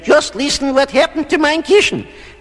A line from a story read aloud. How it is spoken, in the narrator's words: Mama Bear ran into a room and snapped